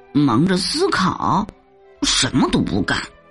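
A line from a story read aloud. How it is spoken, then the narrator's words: Low muttering. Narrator (Chinese): 大老鼠低声咕哝着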